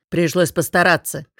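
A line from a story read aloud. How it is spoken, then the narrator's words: Smirking snort. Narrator (Russian): хмыкнул Варс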